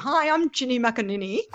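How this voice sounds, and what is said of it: Put-on tennis mum voice. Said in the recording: “I sounded a bit like a tennis mum.”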